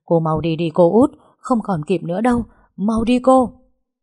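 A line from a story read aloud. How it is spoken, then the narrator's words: Frantic shouting. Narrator (Vietnamese): ba người đàn ông bị trói giữ vẫn gào loạn lên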